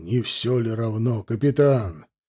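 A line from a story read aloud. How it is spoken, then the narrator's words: Hoarse chuckle. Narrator (Russian): Титов издал сиплый смешок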